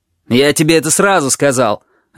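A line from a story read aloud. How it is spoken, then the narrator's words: Barked. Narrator (Russian): рявкнул Мияма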